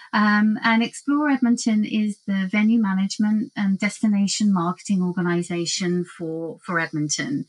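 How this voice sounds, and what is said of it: British accent. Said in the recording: “I'm actually based in the UK for Explore Edmonton. You may have detected that from the accent.”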